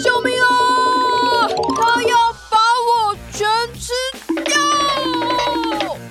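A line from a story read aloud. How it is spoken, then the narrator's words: Big bear shouting. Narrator (Chinese): 大熊喊着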